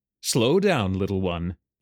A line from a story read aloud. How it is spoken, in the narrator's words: an elf chuckled